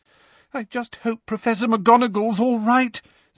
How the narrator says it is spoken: said Lavender tearfully

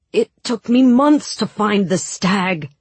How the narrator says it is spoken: Mal said desperately

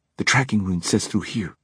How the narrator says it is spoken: Alec said quietly

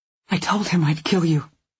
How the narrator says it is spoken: I whisper

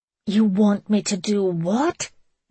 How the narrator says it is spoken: Megan gasped

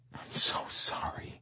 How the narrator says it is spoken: I whispered

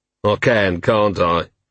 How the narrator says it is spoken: He said sadly

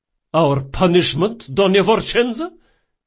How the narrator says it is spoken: said Lorenzo hotly

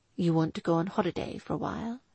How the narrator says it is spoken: he asked softly

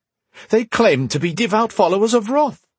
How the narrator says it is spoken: he'd said, his voice rising

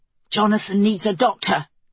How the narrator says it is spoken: Dorian panted

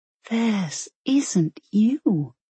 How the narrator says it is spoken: she whispered

